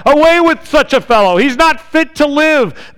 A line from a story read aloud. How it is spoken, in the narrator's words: They yelled